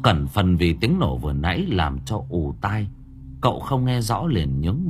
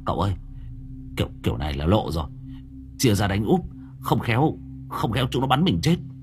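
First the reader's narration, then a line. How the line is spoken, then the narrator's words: Stammering. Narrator (Vietnamese): Long đầu đất lắp bắp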